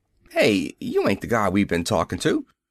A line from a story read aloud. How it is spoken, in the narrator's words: Sergeant Bellews said very sharply